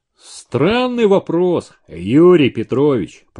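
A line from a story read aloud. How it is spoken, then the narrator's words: Offended booming drone. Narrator (Russian): прогудел обиженный голос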